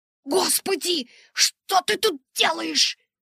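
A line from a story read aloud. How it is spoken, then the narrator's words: Hiss. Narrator (Russian): прошипела я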